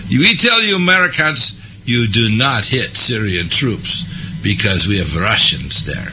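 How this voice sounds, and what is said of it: Put-on Russian accent. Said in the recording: “I'm going to use the Russian accent now.”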